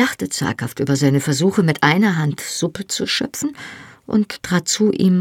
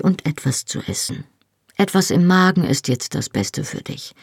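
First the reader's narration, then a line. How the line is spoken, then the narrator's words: Said calmly. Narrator (German): sagte er ruhig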